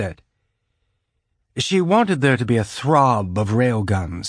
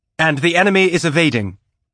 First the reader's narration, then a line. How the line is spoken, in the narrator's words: the sensor tech reported, her voice sharp